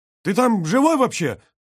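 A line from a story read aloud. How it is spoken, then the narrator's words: Shouted. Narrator (Russian): прокричал Брагинский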